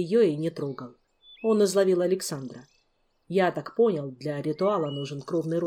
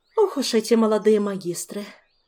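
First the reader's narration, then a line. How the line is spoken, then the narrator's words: Sigh. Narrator (Russian): вздохнула матресса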